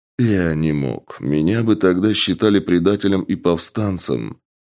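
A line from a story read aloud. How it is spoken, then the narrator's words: Sighing. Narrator (Russian): вздохнув, сказал генерал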